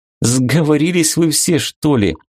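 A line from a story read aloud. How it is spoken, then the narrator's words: Laughing. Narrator (Russian): засмеялась Вика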